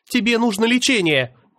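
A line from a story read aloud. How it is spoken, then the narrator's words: Alarmed shout. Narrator (Russian): выкрикнула Аня с тревогой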